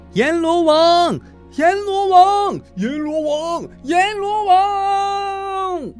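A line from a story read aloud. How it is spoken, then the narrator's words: Excited crowd chanting. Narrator (Chinese): 一群人正在兴奋的高喊着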